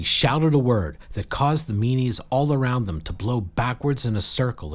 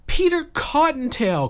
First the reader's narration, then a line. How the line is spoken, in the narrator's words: cried Jill